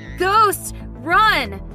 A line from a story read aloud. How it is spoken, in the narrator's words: My brother shouted in panic